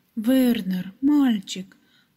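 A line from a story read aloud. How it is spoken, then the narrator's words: Exclaiming. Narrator (Russian): воскликнула она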